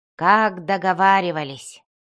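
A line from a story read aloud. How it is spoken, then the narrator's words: Muttering. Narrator (Russian): Он пробормотал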